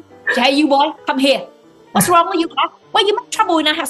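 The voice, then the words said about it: Vietnamese-accented English, imitating mother. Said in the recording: “Vietnamese, you know, tiger wife, tiger mom ... she would use, you know, her accent ... I'm going to study your accent”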